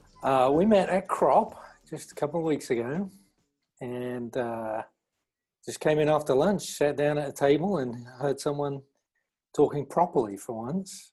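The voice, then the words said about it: Accent with a slight American mix. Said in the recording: “I said Australian ... I feel like you've got a slight mix of American in there as well ... It's too American for English people to get immediately”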